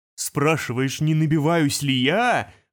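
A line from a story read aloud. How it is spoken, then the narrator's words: Roar breaking into hiss. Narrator (Russian): взревел он, срываясь на шипение достойной реки, которая протекает сквозь сталеличейную печь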